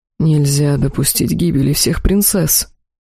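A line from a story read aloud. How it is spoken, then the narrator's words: Moaning. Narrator (Russian): простонал Ихар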